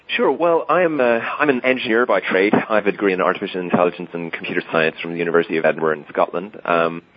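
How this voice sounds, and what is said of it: Irish accent. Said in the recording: “he does have a little bit of an unfortunate accent, so I hope you can put up with the Irishness here”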